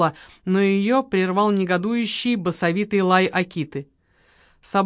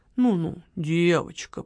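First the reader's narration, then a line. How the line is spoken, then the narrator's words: Soft soothing murmur. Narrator (Russian): приговаривал он тихонько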